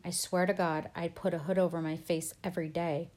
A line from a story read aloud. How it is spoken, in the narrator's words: said, kind of laughing